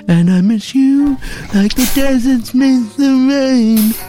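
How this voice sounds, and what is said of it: Sung imitation of another person's voice. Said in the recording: “It's Tracy Thorne, my impression... It's not very good, is it?”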